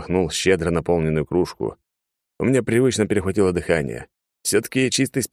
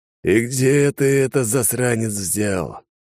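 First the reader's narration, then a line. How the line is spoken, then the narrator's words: Admiring mumble, mouth full. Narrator (Russian): восхищенно прошамкал Алекс с полным ртом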